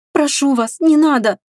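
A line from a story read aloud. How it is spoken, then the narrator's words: Pleading. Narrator (Russian): взмолилась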